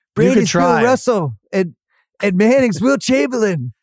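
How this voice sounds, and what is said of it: Imitates another person's voice. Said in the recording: “An imitation of myself ... You got to go deeper ... more resonance”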